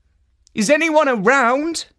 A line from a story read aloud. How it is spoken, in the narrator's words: called out